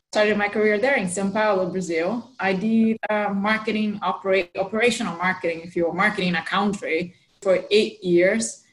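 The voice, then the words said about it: Brazilian accent with American influence. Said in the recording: “For my accent, for those of you who know a little bit of the Brazilian accent, with an American influence”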